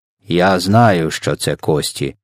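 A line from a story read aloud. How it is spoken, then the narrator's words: Grumbled. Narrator (Ukrainian): буркнув ВДВ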